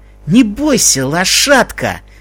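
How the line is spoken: Hissed through teeth. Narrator (Russian): сквозь зубы прошипел один из них

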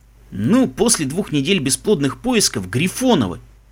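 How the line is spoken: Grumbling. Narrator (Russian): проворчал Мбица

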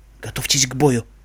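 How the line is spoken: Whispered. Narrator (Russian): прошептала проводница

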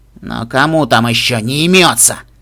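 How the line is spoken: Irritated judge. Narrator (Russian): Раздраженно судья

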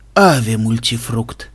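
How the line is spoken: Excited hoarse croak. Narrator (Russian): с волнением прохрипел Цезарь

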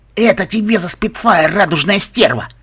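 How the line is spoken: Creature's angry growl. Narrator (Russian): прорычал фестрал

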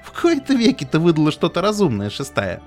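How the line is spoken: Chuckling. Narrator (Russian): хохотнула

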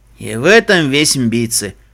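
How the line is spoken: Snort. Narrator (Russian): фыркнул Себастьян

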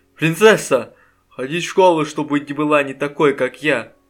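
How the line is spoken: Sobbing. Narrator (Russian): рыдала

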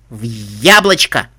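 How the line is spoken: Panicked squeal. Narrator (Russian): Грифина панически взвизгнула

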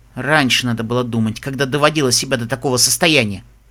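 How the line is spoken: Grumbled. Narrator (Russian): буркнул доктор

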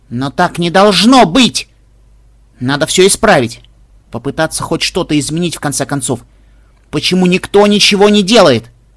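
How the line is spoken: Sudden sharp voice. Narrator (Russian): Лира вдруг сказала резким голосом

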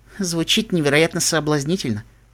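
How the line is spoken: Sleepy murmur. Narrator (Russian): пробормотала огненная пони, в голосе которой вновь появились сонные нотки

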